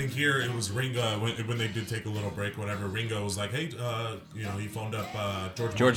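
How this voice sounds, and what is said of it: Usual voice. Nothing is said of it.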